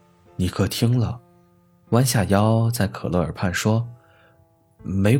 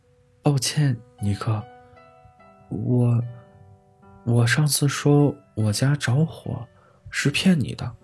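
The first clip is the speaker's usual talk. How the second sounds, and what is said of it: Soft, shy quiet voice. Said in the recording (Chinese): “红着脸小声说”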